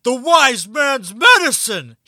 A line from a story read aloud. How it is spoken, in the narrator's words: he exclaims